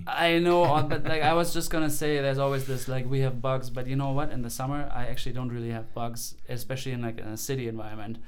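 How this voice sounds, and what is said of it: German accent. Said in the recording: “according to my accent, they know I'm from Germany”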